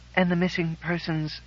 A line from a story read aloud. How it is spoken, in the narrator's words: Rose said faintly